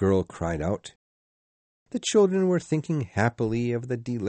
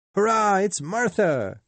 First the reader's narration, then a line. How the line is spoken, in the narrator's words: cried the younger children